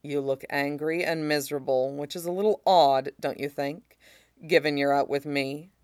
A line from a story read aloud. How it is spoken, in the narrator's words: He murmurs right in Ed's ear, voice soft but words hard